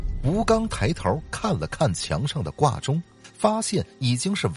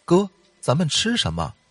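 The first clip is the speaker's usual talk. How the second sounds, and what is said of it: Quiet, hushed question. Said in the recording (Chinese): “小声问道”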